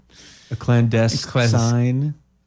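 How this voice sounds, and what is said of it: Put-on Australian accent. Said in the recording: “Is I that like Australian? ... Yes, that was my Australian accent.”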